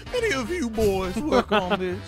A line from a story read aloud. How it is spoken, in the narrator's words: He chuckles